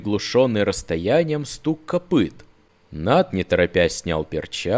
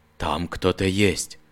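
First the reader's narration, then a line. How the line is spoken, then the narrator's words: Quiet. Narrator (Russian): негромко повторил он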